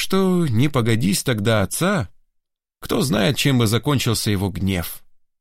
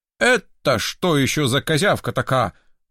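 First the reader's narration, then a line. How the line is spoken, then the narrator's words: Menacing question. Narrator (Russian): грозно вопросил он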